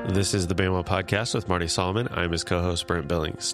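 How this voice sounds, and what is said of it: Congested, stuffy voice. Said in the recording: “I am being destroyed right now by my allergies, so I'm a little congested. You may hear that in my voice”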